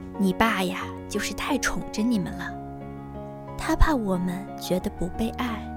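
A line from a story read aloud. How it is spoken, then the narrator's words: Long weary sigh. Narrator (Chinese): 我妈和我说起这件事儿，悠悠叹了口气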